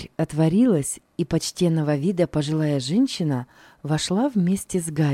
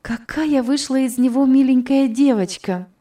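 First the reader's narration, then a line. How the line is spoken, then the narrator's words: Exclamation. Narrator (Russian): воскликнула Элиза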